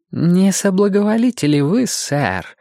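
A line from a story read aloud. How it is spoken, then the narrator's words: Silky voice. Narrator (Russian): спросил он шелковым голосом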